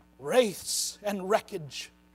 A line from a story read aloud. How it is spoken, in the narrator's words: gasped Trumpkin in the ghost of a voice